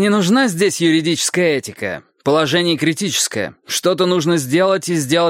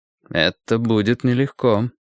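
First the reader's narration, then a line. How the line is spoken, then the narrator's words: Quiet. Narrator (Russian): тихо сказал Перри Мейсон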